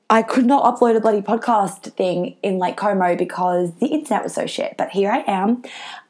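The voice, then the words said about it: Croaky, tired voice. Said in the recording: “My voice is a little bit croaky ... because I was having way too much fun in Lake Como singing and dancing ... I am tired”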